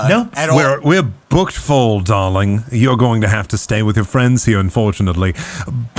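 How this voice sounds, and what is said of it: Inconsistent put-on accent. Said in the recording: “My accent is all over the place. I can't tell what I am.”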